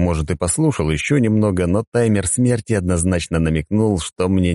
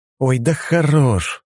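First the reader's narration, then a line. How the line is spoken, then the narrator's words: Tired. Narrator (Russian): устало произнес я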